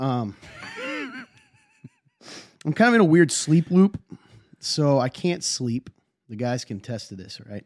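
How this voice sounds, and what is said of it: Sick voice, sounds weird. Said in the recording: “fighting this weird sickness ... If my voice sounds weird, that's why. And I'm going to cough”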